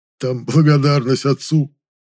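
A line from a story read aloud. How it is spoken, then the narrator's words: Embarrassed sob. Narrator (Russian): всхлипнул тот сконфуженно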